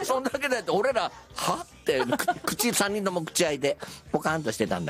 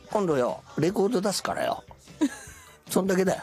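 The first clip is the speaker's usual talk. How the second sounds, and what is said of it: Imitates another person's voice. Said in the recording (Japanese): “今、モノマネ。 ... モノマネです。 ... 金ちゃんの。”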